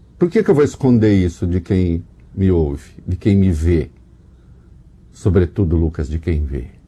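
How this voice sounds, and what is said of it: Brazilian caipira country accent. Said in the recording (Portuguese): “Reconheci pelo sotaque caipira.”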